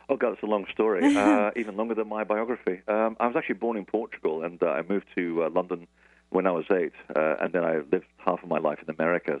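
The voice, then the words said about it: Transatlantic accent. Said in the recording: “this ridiculous accent, which is sort of transatlantic ... Your lovely coastal bi-regional accent”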